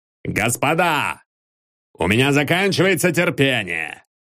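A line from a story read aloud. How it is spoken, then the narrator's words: Shouted. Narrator (Russian): крикнул Гурович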